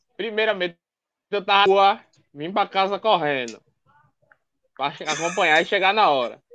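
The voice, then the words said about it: Northeastern Brazilian accent. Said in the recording (Portuguese): “sotaque todo especial nordestino”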